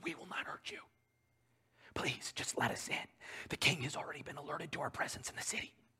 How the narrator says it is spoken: Again, the men whisper

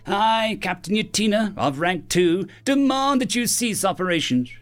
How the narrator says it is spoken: she said, and her voice carried far across the jungle, stilling the sounds of the waterfall, deafening the bees, and ceasing all wind

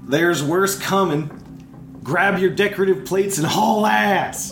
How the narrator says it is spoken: over his shoulder, he's gonna shout

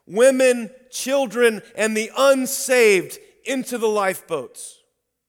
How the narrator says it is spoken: He was heard shouting

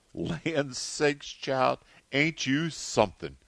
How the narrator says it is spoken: she exclaimed

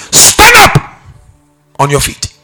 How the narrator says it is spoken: Paul shouted with a loud voice

